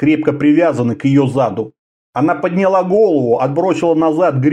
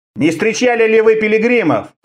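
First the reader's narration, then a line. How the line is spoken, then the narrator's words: Shouted. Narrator (Russian): крикнул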